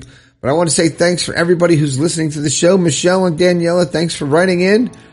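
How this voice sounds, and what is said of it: Raspy, strained voice. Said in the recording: “My throat is kind of killing me. So as you can tell, it's a little raspy.”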